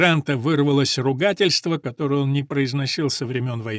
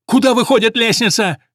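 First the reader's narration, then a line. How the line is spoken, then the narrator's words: Shouted while running. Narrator (Russian): крикнул он на бегу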